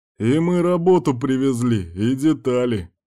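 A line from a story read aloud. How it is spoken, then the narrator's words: Shout into darkness. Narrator (Russian): крикнул Кирк в темноту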